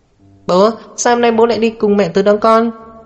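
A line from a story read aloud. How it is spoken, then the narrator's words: Childish questioning voice. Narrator (Vietnamese): Dài Dài hỏi với chất giọng non nớt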